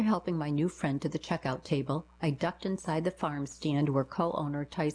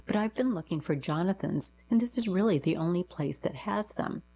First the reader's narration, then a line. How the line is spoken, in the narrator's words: she said with a small laugh